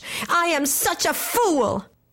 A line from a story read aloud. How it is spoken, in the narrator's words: she cried in a rage